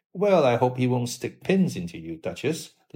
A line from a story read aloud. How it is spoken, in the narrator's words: laughed Dorian